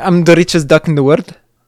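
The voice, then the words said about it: Scottish cartoon duck character voice. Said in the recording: “Can you do a Scottish accent real quick? Can you do a Scrooge McDuck? ... That's pretty good.”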